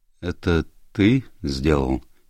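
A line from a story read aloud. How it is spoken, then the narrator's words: Quiet. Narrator (Russian): тихо сказал Валиенте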